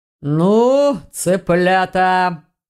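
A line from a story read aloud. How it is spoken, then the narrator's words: Deep bass voice. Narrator (Russian): пробасил мастер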